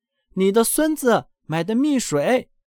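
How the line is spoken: Repeated shouting. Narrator (Chinese): 他把这话又喊了一遍，之后又一遍

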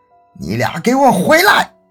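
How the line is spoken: Loud urgent shout. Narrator (Chinese): 他连忙 大声喊道

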